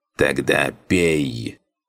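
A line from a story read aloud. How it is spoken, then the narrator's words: Creaky voice. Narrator (Russian): проскрипела Зерге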